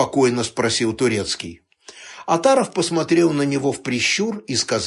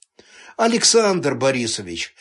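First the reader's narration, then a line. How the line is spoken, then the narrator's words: Friendly tone. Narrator (Russian): заговорил он доброжелательным тоном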